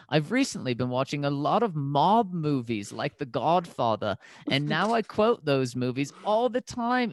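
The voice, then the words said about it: Put-on Australian accent. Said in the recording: “You sound like you're saying an Australian accent... I'm trying to do the Australian here... as I kill you with my Australian accent”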